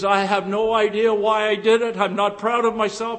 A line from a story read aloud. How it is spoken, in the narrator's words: said